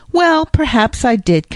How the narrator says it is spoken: confessed Jasper, bursting into a laugh

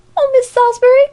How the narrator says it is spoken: cried Alexia, flying after her

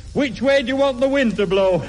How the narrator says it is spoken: That big-headed mug shouts

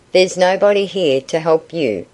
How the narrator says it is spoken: said Lem, with a brutal chuckle

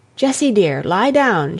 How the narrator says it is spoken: she said

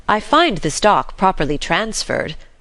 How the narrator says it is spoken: continued Uncle John, grimly conscious that he was as thoroughly disappointed as the girls

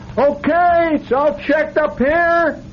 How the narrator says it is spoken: Somebody hollered

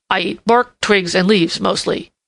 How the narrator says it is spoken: grunted ungraciously

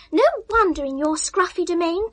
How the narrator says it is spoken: cried Ethel

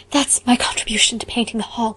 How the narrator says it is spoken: she gasped

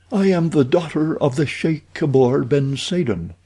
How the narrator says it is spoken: she answered

